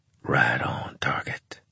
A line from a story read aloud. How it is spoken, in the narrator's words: whispered Claver